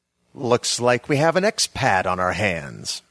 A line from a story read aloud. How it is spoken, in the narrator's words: said a sneering voice I recognized as Adam Kilkenny